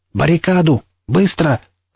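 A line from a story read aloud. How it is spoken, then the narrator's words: Angry yelling. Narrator (Russian): заорал злой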